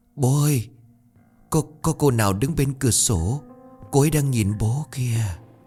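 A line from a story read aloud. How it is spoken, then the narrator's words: Trembling, ominous voice. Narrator (Vietnamese): Giọng của nó run rẩy vang lên như một án tử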